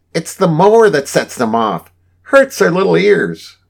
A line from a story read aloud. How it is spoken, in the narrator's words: cried Mrs